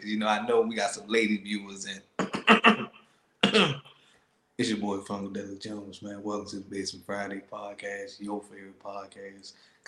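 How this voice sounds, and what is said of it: Suave, sexy put-on voice. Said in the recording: “I got my suave voice on right quick ... Putting sexy voice on.”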